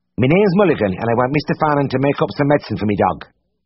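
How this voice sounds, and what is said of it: Character voice with rich accent. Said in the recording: “spoke with a rich, unexpected accent”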